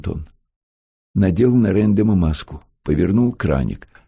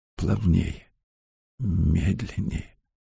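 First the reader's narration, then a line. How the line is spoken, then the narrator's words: Whisper. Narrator (Russian): шептал Антон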